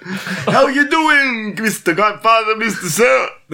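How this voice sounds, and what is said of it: Funny Godfather character voice. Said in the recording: “It's the Godfather... That was just a funny voice.”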